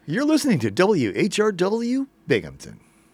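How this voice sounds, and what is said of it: Booming radio announcer voice. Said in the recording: “There's that radio voice. ... I learned my radio voice at the Big Boy Announcer School.”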